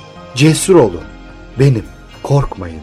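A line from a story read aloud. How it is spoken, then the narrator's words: Plain. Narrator (Turkish): dedi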